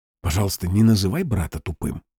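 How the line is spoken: Whisper. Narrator (Russian): прошептал он

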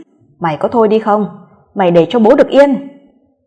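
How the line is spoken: Bellowed scolding over phone. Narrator (Vietnamese): Hiếu đã gào lên trong điện thoại mắng nhiếc

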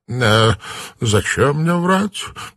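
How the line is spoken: Faltering babble. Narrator (Russian): пролепетал он

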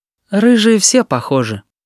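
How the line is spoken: Sighing. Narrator (Russian): вздохнула Юля

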